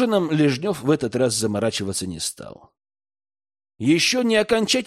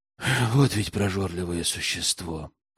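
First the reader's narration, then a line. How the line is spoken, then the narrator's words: Muttering under breath. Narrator (Russian): Пробормотал себе под нос Герман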